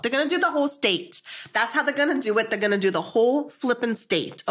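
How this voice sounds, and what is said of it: Put-on New Jersey accent. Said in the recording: “your Jersey accent is fantastic.”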